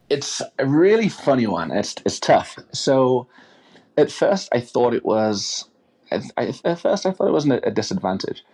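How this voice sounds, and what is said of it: English accent. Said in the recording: “You're from England. You have an accent.”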